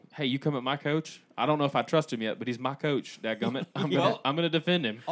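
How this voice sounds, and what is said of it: Put-on regional accent. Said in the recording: “I wasn't as insulting in my accent as you were.”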